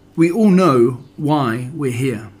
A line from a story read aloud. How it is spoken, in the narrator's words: he said